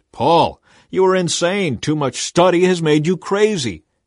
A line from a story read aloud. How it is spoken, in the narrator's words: Suddenly Festus shouted